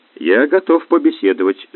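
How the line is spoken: Calm. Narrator (Russian): спокойно произнес Успенский

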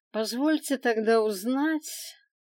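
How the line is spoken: Nearly indifferent dragon asking. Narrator (Russian): почти равнодушно поинтересовался дракон

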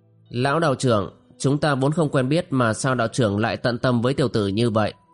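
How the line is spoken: Wistful sighing question. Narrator (Vietnamese): Tiểu Lĩnh Vu bâng khuâng buông tiếng thở dài, hỏi

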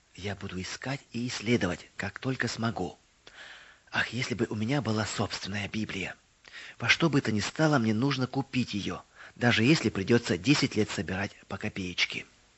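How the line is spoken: Whisper. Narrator (Russian): Мэри прошептала

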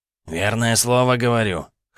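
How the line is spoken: Wry snort. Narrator (Russian): хмыкнул Пеле рваное ухо, видно и сам понимая всю абсурдность сиюминутно сложившейся ситуации

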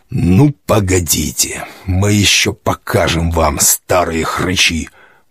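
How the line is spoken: Agitated old man muttering. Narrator (Russian): бормотал я, старик, а сердце стучало

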